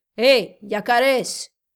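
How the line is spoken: Shouted. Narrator (Spanish): gritó el oficial

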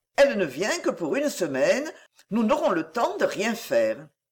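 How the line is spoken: Melancholy tone. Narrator (French): d'un ton mélancolique il ajouta

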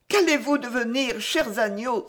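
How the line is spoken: Exclaimed. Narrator (French): s'écria-t-elle

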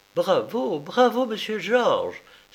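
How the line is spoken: Exclamation after a pause. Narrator (French): s'écria-t-elle au bout de quelques instants

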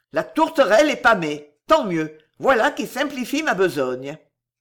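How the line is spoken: Commanding voice. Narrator (French): d'une voix de commandement à ses hommes

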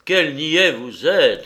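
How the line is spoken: Exclaimed. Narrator (French): s'écria le meunier

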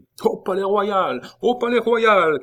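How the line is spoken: Crowd shouting. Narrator (French): cria la foule

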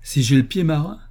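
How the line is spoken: Exclaiming in reply. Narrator (French): s'écria-t-il en réponse à la question jalouse d'un aimable jeune homme

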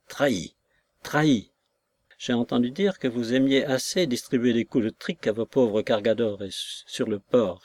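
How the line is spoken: Curt, dry, renewed strength. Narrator (French): fit le docteur d'un ton sec, qui prouvait chez lui un retour de force

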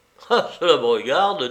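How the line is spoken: Laughing. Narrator (French): dit-il en riant

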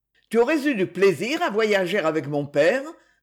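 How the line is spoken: Brusque question. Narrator (French): demanda-t-il d'un ton brusque

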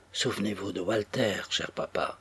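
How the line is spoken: Quiet, soft. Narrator (French): dit-il tout bas

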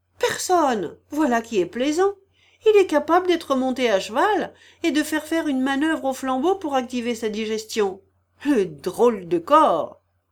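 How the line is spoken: Exclaiming. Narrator (French): en s'écriant

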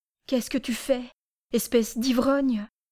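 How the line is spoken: Exclaiming with dawning pity. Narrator (French): s'écria Pélagie qui commençait à avoir pitié de Parmionne

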